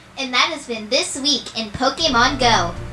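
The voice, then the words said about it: Announcer voice. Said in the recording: “in my IGN announcer voice”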